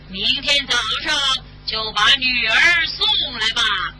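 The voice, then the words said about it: Frightening monster voice from the sky. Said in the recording (Chinese): “天空有个可怕的声音说着”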